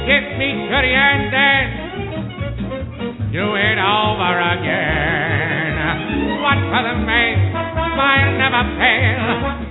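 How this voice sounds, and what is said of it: Imitates another person's singing voice. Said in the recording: “his terrific Al Jolson impression”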